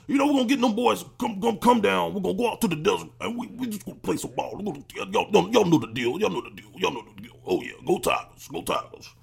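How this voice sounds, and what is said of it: Imitates another person's voice. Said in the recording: “we're going to talk like this ... my Coach O impersonation”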